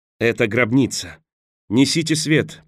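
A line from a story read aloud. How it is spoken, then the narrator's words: Half-crazed shout. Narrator (Russian): полубезумно выкрикнул он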